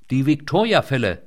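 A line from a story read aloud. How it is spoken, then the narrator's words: Called out. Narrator (German): rief Leinet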